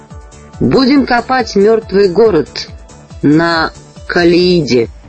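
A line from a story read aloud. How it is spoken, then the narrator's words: Plain. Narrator (Russian): ответил он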